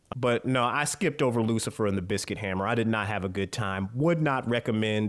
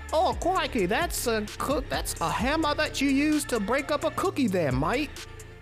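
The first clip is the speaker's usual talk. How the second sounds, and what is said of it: Put-on British accent. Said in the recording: “my people in the UK are like ... Don't judge me for my accents. I'm doing the best I can.”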